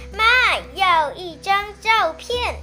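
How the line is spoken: Shouting. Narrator (Chinese): 我朝厨房大喊

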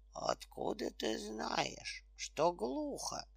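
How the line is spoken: Bear cub asking. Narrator (Russian): спросил медвежонок

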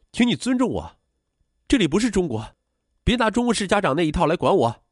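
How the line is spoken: Shouting complaint. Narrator (Chinese): 王然然动不动就嚷嚷

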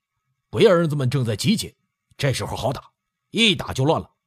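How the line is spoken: Loud, eager. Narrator (Chinese): 贺老六目中得得生光，大声请示道

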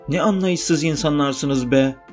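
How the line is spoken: Shouting. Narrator (Turkish): diye bağırıyordu

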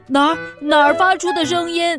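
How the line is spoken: Panicked shout. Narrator (Chinese): 他却慌慌张张的大叫

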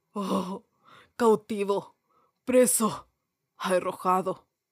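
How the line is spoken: Ghost moaning. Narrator (Spanish): gimió el fantasma

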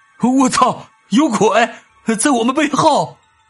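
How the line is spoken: Sudden loud shout. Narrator (Chinese): 为首的 W 和 C 突然大叫了一声

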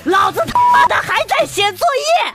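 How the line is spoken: All-out roar. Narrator (Chinese): 使尽全身的力气大吼

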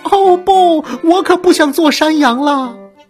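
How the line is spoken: Shouting. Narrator (Chinese): 皮皮又喊道

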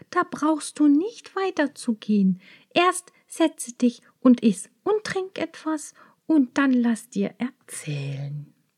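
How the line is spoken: Called out. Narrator (German): rief die Braut

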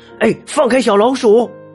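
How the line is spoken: Loud shout. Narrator (Chinese): 特鲁鲁…大声喊着

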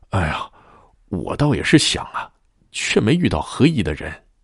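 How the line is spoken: Slow, leisurely sigh. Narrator (Chinese): 吴宏悠悠的叹道

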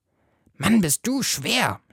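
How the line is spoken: Groaning. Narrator (German): stöhnt Fritz

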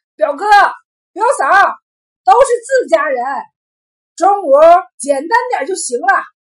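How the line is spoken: Loud shout. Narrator (Chinese): 小抠在堂屋里亮起高嗓门喊道

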